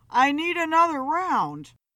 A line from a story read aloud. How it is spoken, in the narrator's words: Philip called out to her